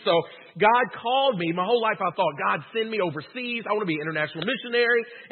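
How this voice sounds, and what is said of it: Rural Southern American accent. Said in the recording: “You can probably tell by my accent, I'm from the redneck side of the river.”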